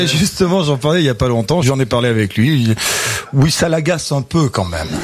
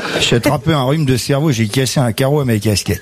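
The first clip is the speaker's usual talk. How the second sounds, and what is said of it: Imitates another person's voice. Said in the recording (French): “vous l'imitez ... Il pensait pas qu'il avait autant d'accent.”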